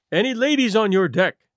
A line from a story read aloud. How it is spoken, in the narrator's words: he said